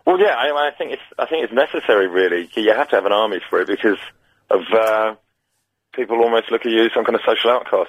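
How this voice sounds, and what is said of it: Bored-sounding flat voice. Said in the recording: “Sorry, you sound a bit bored. ... Yeah, I am a bit.”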